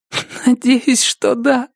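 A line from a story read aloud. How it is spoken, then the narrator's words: Sobbing. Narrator (Russian): всхлипнула Рози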